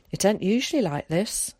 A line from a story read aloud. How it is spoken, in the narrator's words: said Carrie